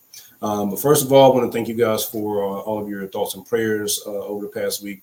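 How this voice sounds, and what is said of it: Raspy hoarse voice. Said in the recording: “you probably hear my voice. It's still a little raspy”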